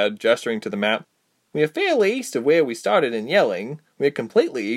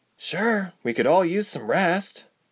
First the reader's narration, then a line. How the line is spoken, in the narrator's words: Ilse sighed